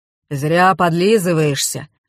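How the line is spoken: Gloomy. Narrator (Russian): мрачно сказал Дегтярев

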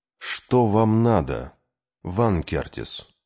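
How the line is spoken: Weary question. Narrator (Russian): устало спросил Кей

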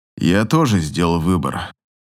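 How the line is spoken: Grim. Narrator (Russian): заключает он мрачно

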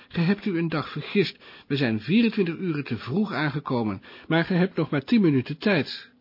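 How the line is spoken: Shout. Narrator (Dutch): riep Passepartout

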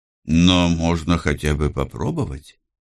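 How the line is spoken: Thoughtful. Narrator (Russian): задумчиво произнес

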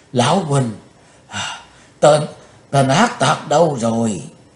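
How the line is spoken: Panting question. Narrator (Vietnamese): Trừng Mộng Giả Tiên vừa thở hổn hển vừa hỏi

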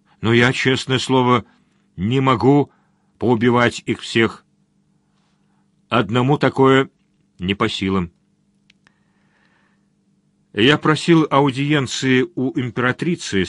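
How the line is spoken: Plain. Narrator (Russian): сказал князь

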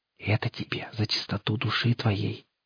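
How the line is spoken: Conspiratorial whisper. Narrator (Russian): заговорщическим шепотом добавляет она

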